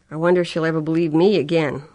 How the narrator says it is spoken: Laurie asked bitterly

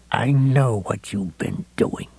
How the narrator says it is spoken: he whispered to Heavyset

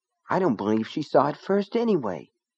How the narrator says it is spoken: Myra said in a small, sulky voice

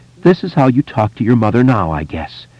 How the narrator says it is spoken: she said through her sobs

